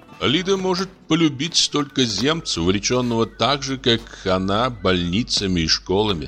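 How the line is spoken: Plain. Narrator (Russian): сказал я

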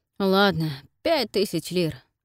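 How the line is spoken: Sighing. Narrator (Russian): вздохнул Нейтан

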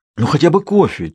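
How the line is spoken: Almost pleading. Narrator (Russian): чуть ли не взмолился Матос

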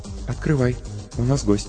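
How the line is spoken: Quiet, from behind. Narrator (Russian): негромко сказала позади

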